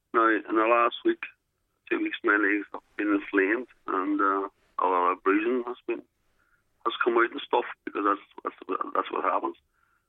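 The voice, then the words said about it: Voice affected by chest infection. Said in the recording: “You'll have to excuse my voice because I've got a chest infection at the moment.”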